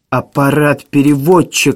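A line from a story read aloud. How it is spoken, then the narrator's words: Exclamation. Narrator (Russian): воскликнул Максвелл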